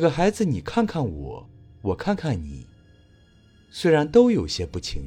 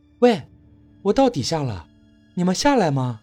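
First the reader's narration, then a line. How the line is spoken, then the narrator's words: Loud calling out. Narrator (Chinese): 他大声地往外喊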